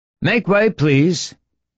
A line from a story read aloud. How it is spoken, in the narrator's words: shouted Monsieur Godard